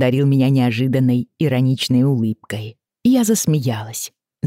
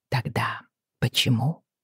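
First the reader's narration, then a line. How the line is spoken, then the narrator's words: Very soft. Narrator (Russian): спросила я очень мягко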